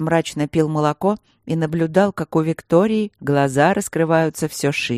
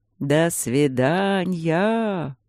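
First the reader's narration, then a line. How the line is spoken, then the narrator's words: Thin mannered drawl. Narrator (Russian): протянул он тонким манерным голоском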